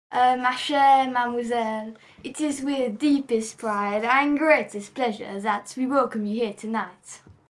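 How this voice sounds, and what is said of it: Put-on French accent. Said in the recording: “can you give me a couple of your lines that you had, but with the French accent?”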